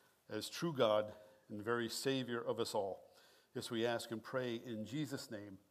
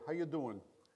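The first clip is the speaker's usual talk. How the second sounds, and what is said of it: Strong New York Long Island accent. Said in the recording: “in the strong New York, Long Island accent”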